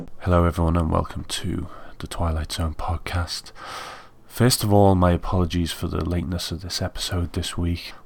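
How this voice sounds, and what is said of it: Rough, hoarse voice. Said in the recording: “I've been suffering with a little cold, so my voice is unfortunately a little rough right now, and it's a little painful to talk”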